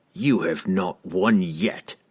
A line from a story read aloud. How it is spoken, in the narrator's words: he spat defiantly